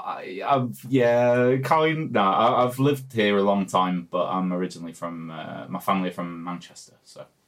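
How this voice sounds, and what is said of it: Non-Dutch accent. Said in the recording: “that was an accent that probably hadn't originated in the Netherlands”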